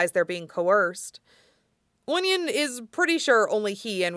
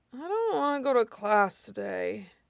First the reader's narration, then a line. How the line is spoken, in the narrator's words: he mumbles